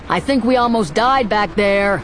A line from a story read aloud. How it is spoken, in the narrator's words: Han called out